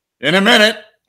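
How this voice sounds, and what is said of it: Shouting. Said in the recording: “I'm shouting”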